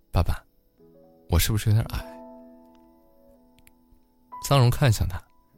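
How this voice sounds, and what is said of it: Soft, quiet voice. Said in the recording (Chinese): “小声说”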